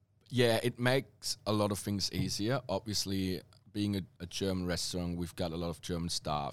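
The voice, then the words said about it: German accent. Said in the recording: “I probably would have lost my German accent already by now if I would work with more Australians”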